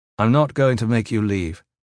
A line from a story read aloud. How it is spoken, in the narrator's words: Gavin said